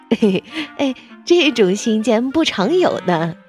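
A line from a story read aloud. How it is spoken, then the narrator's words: Laughing. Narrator (Chinese): 小李笑着说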